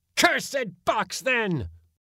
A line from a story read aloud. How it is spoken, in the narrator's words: roared my uncle in a terrific voice, sudden as a squall